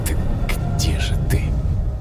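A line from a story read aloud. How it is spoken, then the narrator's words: Whisper. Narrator (Russian): Прошептал я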